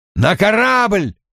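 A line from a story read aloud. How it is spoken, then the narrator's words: Shout. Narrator (Russian): закричал Том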